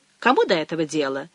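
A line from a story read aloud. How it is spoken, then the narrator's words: Contemptuous snort. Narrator (Russian): пренебрежительно фыркнула Мэгги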